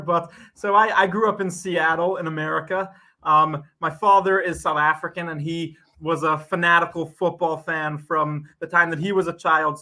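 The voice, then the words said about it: American accent, not British. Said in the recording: “your accent isn't from around these parts ... my accent hasn't quite become a British one just yet”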